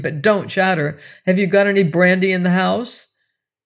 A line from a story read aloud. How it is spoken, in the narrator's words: I cried to her angrily